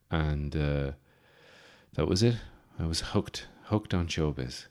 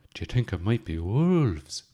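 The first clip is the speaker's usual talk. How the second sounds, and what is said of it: Big exaggerated put-on accent. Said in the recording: “In my big culty accent”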